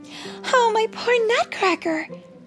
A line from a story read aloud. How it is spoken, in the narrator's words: she cried